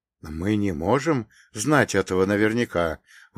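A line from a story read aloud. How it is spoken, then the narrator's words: Exhaled. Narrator (Russian): выдохнул патриарх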